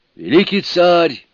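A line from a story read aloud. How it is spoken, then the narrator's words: Exclamation. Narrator (Russian): воскликнул он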